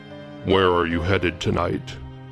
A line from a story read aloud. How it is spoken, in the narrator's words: His voice was unusually deep and creepy